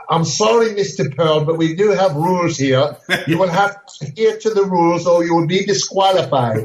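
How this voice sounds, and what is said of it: Imitated English accent, no-nonsense. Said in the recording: “he had that English accent. He was a British guy. ... That's a perfect imitation. That's exactly how he sounded.”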